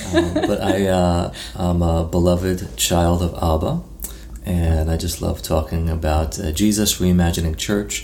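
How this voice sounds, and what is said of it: New York accent. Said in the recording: “With your New York accent.”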